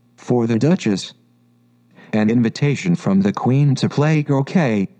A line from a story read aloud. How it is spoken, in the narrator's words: saying, in a solemn tone